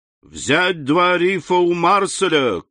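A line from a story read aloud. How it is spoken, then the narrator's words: Shouting. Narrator (Russian): крикнул капитан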